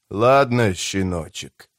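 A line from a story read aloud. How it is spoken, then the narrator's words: Quiet hoarse rasp. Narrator (Russian): тихо прохрипел он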